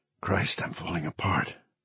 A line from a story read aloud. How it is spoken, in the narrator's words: he whispered